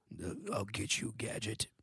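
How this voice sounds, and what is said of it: Dr. Claw cartoon villain voice. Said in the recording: “Dr. Claw? ... How does that voice go?”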